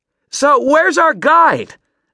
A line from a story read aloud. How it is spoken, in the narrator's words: Maddie yelled into Adam's ear